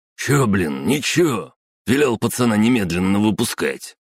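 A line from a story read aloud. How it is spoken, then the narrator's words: Irritated. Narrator (Russian): раздраженно пожал плечами Слободрыщенко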